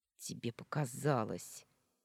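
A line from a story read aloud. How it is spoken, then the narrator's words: Rude retort. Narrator (Russian): грубо вернула ему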